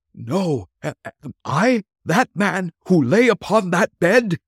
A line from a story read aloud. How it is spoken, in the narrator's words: He cried upon his knees